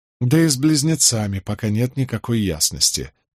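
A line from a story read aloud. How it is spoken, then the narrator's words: Sighing. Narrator (Russian): вздохнул Николас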